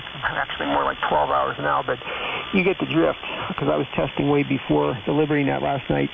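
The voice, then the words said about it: Worn-out, hoarse voice. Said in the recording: “after, 8 hours, I'm losing my voice like I am now”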